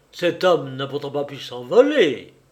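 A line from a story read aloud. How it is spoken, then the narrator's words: Officer exclaiming. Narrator (French): s'écria le gradé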